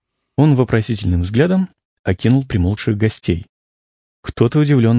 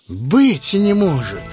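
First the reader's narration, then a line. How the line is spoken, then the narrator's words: Loud joyful exclamation, innkeeper. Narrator (Russian): воскликнул трактирщик громко и радостно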